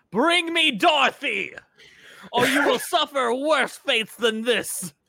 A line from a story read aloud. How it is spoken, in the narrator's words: She screams at the top of her lungs